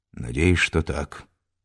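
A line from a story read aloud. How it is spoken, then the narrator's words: Gloomy mutter. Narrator (Russian): мрачно буркнул Анисимов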